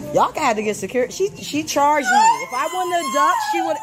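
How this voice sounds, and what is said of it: New York or New Jersey accent. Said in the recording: “This is clearly a New York or New Jersey accent.”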